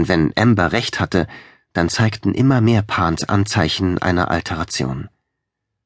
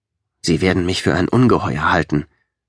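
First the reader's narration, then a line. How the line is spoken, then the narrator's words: Grumbled. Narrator (German): brummte er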